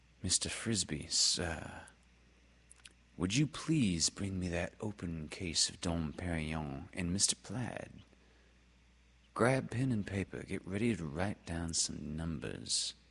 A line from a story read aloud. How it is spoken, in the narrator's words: Melba Jean said coldly